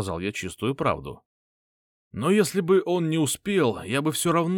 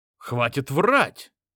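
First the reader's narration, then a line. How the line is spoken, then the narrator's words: Exclaiming. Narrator (Russian): воскликнул Соколов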